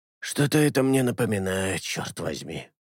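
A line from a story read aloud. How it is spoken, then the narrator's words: Through gritted teeth. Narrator (Russian): процедил Алета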